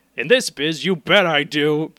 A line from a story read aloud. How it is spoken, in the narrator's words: Patty yelled across the hall